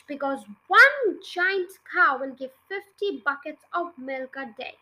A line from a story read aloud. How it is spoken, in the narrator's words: cried Mr